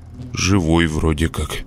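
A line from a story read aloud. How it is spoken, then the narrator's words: Sleepy. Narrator (Russian): сонно ответил я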